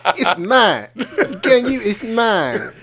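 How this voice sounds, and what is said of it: Cartman impression. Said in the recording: “Is that your Cartman impersonation?”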